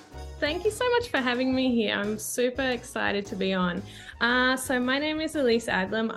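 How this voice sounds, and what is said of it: Australian accent. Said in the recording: “I'm originally Australian, as you can hear from my voice.”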